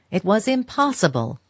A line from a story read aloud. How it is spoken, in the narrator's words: he exclaimed